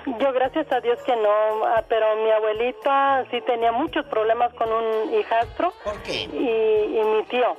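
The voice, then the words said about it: Radio announcer-like voice. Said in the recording (Spanish): “ella tiene voz de locutora. ... Tiene voz de locutora.”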